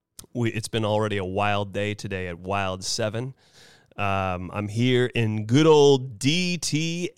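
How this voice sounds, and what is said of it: Hoarse, worn-out voice. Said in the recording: “my voice is just a little shot today”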